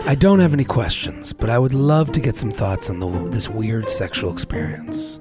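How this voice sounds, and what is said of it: Put-on sexy voice. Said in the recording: “I'm going to go into my sexy voice”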